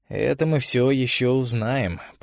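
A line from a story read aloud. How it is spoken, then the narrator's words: Restrained mutter. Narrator (Russian): пробормотал Олег, сдерживая себя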